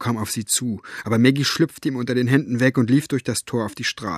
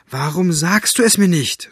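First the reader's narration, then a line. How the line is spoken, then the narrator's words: Calling out. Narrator (German): rief sie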